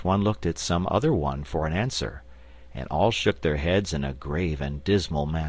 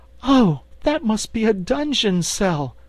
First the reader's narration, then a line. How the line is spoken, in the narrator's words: cried Dorothy, horrified